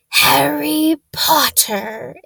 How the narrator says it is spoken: it whispered

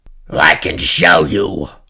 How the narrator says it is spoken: the slug thing croaked

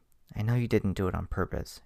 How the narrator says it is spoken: she said, her voice softening significantly from just a few moments ago

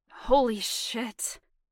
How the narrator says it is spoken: he said roughly

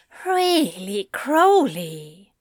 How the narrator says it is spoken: Zira groaned

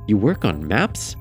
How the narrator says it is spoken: Maxwell let out a laugh

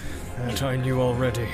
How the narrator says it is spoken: he muttered

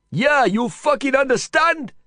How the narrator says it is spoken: Vikram shouted at them

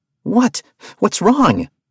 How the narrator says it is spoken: Arthur asked, gasping for breath

